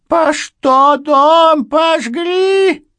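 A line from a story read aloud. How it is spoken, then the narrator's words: Shrill screaming. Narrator (Russian): визгливо закричала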